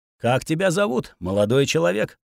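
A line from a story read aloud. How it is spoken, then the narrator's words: Calm old man's question. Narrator (Russian): Спокойно поинтересовался старик, будто я с ним шутки шутил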